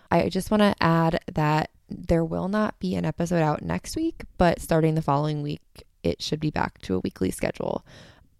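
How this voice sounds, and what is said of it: Quiet, failing voice, sounds unenthusiastic. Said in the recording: “I'm completely losing my voice, which is why the intro and this wrapping up part, I might be very quiet. So sorry if I sound unenthusiastic”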